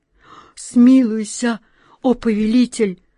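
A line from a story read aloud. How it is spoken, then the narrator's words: Breathless terrified moan. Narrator (Russian): Задыхаясь от ужаса, простонал он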